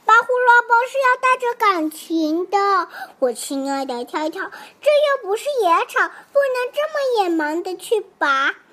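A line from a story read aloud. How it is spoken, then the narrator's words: Sighing. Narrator (Chinese): 笨笨摇摇头，叹了口气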